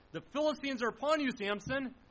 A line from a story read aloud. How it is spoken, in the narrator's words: all of a sudden yells out